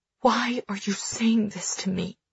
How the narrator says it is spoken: I whisper

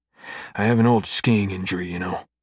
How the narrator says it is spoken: Cam grumbles

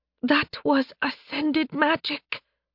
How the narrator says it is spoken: Seraph whispered

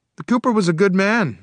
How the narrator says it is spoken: my brother replied hotly

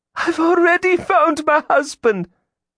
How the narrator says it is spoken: Gillian wailed

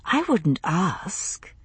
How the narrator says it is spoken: I whispered

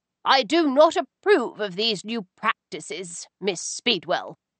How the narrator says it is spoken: she said sternly

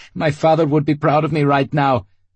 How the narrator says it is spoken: Leonid laughed

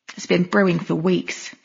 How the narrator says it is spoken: Trina muttered

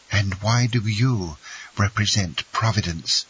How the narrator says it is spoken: cried Mercedes

